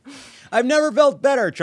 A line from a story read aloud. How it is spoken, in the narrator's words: Trump shouted